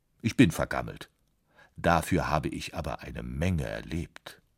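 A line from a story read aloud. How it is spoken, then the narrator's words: Dry, piano speaking. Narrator (German): sagte das Klavier trocken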